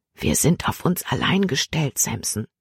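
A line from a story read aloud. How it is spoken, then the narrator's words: Whisper in ear. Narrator (German): flüsterte sie ihm ins Ohr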